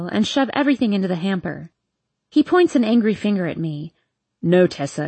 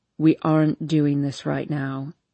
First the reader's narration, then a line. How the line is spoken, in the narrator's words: he says in a cool tone